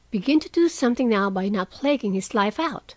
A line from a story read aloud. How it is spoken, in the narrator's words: said Meg sharply